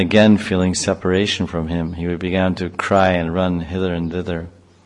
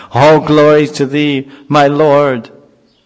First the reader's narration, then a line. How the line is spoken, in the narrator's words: in great joy Prahlad would shout